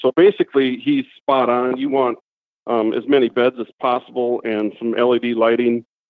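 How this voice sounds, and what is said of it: Northern US Midwest accent. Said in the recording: “you have a northern accent ... a guy from the north Minnesota, Wisconsin area”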